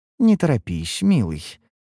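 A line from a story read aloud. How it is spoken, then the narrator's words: Cooing. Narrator (Russian): проворковала Неллис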